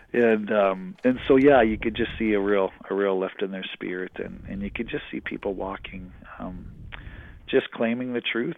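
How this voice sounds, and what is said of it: Strained, fading hoarse voice. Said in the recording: “I'm losing my voice a bit, all the talking I've been doing.”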